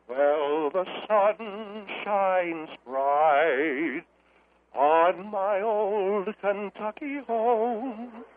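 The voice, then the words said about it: Sings imitating another person's voice. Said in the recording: “Do your Jim Nabors impression ... Sing”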